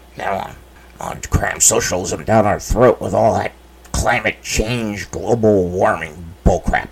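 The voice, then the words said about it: Throat-straining caricature voice. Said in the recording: “I can't do that voice without completely screwing my throat up.”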